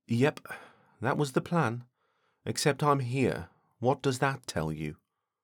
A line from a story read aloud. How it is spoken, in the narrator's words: Deborah sighed